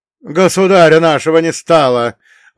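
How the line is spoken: Grief-stricken, angry shout. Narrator (Russian): выкрикнул он, его лицо было красным от горя и гнева

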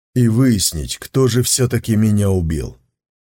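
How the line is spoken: Sighing. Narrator (Russian): Сун Цзиюй вздохнул

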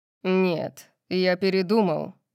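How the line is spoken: Growled. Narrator (Russian): прорычал Сет

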